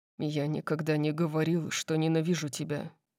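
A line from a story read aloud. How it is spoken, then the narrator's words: Deep muttering. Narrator (Russian): пробормотал Дариус глубоким голосом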